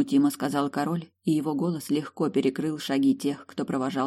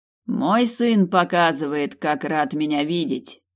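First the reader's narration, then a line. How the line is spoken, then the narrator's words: Loud. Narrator (Russian): громко произнес король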